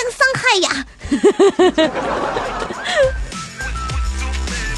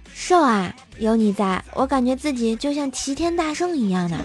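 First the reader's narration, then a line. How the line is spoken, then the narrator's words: Very gentle. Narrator (Chinese): 特温柔的跟我说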